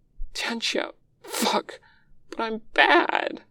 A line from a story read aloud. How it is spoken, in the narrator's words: his voice cracks